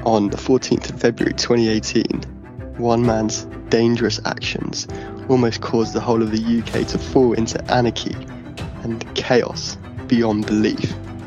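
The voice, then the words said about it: Dramatic announcer voice. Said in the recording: “What is that voice? ... It's my announcer voice. ... my setting the scene voice”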